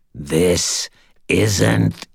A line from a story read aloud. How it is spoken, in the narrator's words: Cowell ... he growled